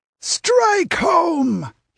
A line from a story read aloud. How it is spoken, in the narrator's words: he screamed